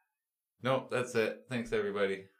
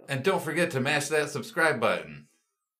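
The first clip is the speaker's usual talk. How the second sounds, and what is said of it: Exaggerated YouTuber-style announcer voice. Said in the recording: “the YouTuber voice”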